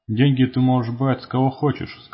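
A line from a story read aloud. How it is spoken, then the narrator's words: Plain. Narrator (Russian): сказал Бубна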